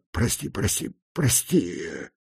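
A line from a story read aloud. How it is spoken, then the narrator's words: Breathed out. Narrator (Russian): Выдохнул он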